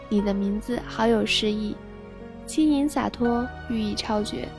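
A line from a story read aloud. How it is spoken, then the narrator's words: Admiring praise. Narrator (Chinese): 立马赞叹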